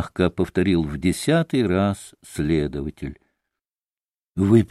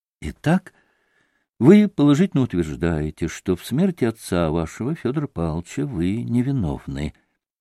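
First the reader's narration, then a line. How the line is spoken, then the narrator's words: Soft but insistent question. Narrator (Russian): мягко, но настойчиво спросил следователь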